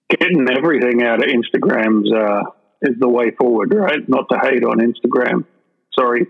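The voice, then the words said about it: Australian accent. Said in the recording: “here's my Australian accent just jumping in”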